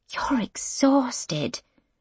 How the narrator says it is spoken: Mum whispers

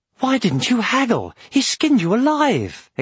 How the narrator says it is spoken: exclaimed Aragorn when they were out of earshot

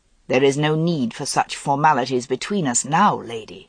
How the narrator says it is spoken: He said roughly

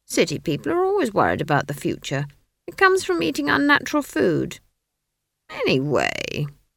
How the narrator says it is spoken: she added, suddenly realizing that she was whining

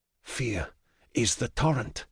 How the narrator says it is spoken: I whisper

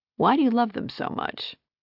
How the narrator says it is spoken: She sighed

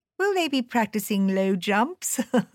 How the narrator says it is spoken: I asked, laughing

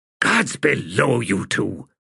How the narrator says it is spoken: hissed Quick Ben

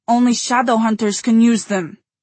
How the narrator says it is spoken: Katerina cried

